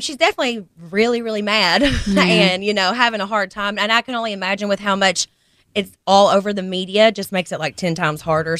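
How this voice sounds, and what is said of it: Kentucky accent. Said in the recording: “you couldn't do no wrong with that accent. ... That Kentucky accent.”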